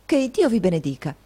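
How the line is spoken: Exclamation. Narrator (Italian): esclamò Nicola

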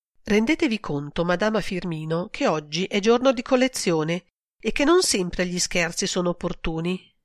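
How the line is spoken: Sighed. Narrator (Italian): sospirò Marta

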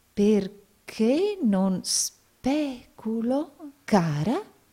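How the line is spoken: Doubtful tone. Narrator (Italian): disse il signor Nickleby in tono di dubbio

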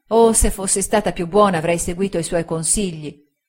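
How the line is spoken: Girl, desperate regret. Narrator (Italian): esclamò la ragazza con disperato rimpianto

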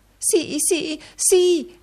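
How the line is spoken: Wife exclaiming. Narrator (Italian): esclamò la moglie

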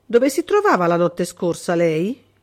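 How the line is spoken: Cold question. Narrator (Italian): chiese freddamente De Vincenzi

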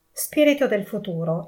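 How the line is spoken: Exclaimed. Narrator (Italian): egli esclamò

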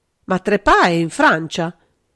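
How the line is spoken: Desperate exclamation. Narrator (Italian): esclamò aggrappandosi disperatamente a quel fatto che riteneva sicuro

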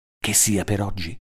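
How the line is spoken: Low question. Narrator (Italian): le domandai a voce bassa

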